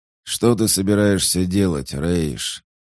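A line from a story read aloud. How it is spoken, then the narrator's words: Hoarse question. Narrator (Russian): хрипло спросил Шоттик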